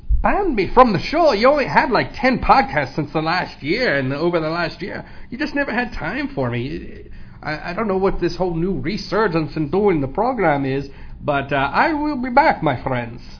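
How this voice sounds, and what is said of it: Irish accent drifting into Russian. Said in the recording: “his Irish accent has gone and just turned into a Russian accent, or something worse”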